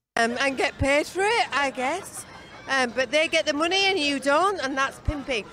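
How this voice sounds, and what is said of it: Older woman's British accent. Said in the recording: “a older wo- British woman's accent”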